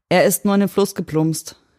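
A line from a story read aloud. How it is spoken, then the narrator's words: Loud call. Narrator (German): rief laut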